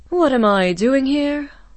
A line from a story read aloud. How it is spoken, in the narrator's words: Octavia sighed